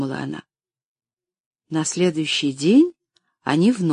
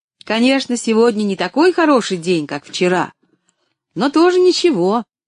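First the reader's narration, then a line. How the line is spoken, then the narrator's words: Cheerful call after someone. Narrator (Russian): весело крикнула она ему вслед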